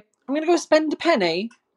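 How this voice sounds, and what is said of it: Poor put-on British accent. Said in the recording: “I'm sorry for that awful British accent.”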